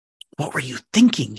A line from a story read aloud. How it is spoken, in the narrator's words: He hissed